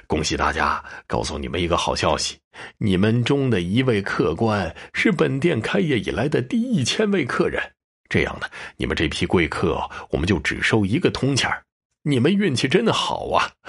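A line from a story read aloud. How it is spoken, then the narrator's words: Smiling. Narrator (Chinese): 柳富贵冲着驼背笑了笑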